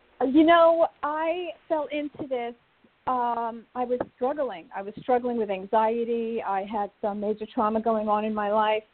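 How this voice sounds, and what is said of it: New York accent. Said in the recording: “You're hearing my New York accent.”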